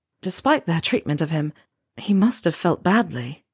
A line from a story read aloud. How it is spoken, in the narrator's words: Harry said quietly